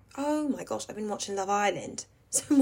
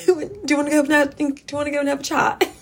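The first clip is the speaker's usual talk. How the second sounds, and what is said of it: Put-on British reality-show accent. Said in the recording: “my Love Island accent is like really good right now”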